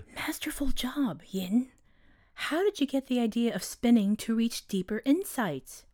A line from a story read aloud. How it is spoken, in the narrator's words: a recently awoken Athena whispered